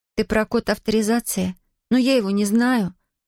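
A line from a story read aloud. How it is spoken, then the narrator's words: Moaning. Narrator (Russian): застонала Зия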